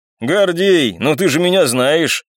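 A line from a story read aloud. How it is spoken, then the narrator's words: Sly chuckle. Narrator (Russian): хитро хохотнул мужчина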